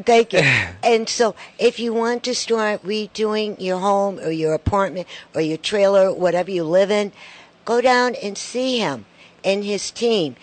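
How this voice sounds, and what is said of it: Loud voice with New York accent. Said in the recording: “I love the New York accent ... That's a loud voice.”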